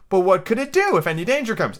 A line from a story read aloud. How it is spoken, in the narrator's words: Alice asked